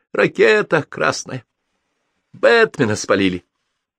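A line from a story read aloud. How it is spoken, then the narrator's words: Sad. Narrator (Russian): Аллилуев печально произнес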